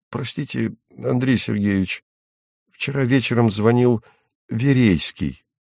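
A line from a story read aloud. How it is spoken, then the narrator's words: Timid after a cough. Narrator (Russian): Тимофей Евсеевич робко кашлянул и сказал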